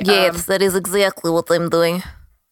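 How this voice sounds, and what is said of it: Put-on Russian accent. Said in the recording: “sometimes I do a Russian accent when I'm tired”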